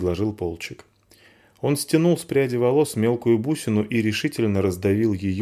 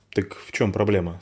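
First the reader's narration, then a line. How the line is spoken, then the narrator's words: Plain. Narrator (Russian): спросил Вар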